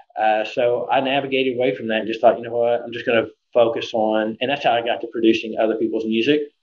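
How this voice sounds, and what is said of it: Oklahoma accent. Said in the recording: “your accent is like kind of a thing that I've picked up on. Like I've grown up in Oklahoma all my life, and like it's a very familiar accent.”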